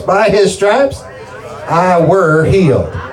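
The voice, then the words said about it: Put-on redneck voice. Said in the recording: “say it in your redneck voice.”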